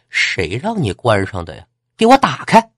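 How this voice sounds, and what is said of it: Shrill, sharp female voice. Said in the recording (Chinese): “一个尖锐的女生的声音”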